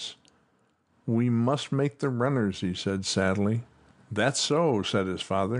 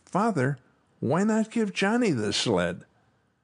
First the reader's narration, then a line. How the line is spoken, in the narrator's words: Suddenly Tommy cried